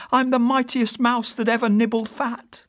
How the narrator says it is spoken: He began to shout

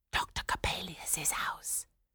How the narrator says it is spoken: whispered one

